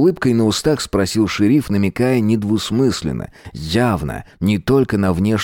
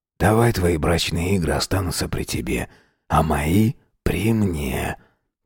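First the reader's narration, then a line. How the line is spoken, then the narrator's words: Soft whisper. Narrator (Russian): тихо прошептал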